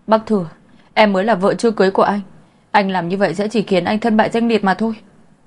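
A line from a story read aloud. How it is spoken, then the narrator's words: Screamed. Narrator (Vietnamese): gào lên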